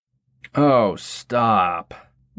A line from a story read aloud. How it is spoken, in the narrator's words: Wilbur groaned